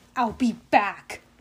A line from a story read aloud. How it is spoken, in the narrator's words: she growled